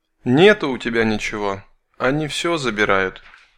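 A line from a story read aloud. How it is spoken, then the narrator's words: Sad female voice. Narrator (Russian): печально произнес женский голос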